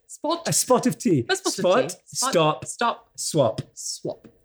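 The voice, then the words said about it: Posh British accent. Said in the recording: “My British accent. ... you made me sound really posh ... Mary Poppins”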